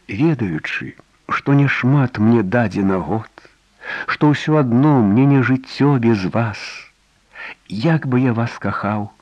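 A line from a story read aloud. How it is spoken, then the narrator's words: Sad smile, somewhat calmer. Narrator (Belarusian): Сумна усміхнулася, трохі заспакоеная яго словамі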